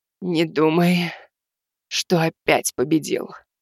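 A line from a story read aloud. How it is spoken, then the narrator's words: Hoarse, out of breath. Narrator (Russian): хрипло произнесла Каласса, пытаясь отдышаться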